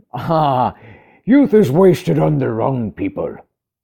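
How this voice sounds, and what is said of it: Bad put-on accent. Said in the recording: “bad accent”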